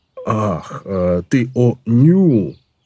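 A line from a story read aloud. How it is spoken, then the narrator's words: Drawn-out. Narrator (Russian): протянул Колон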